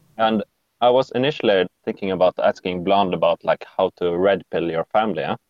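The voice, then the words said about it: Norwegian-accented English. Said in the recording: “your accent is what? What's your nationality? ... Norwegian. Norwegian. ... I was gonna guess more like Eastern European”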